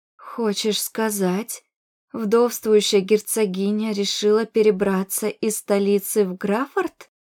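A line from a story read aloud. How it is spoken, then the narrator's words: Hoarse, panicked. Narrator (Russian): произнесла я хрипким голосом от нарастающей паники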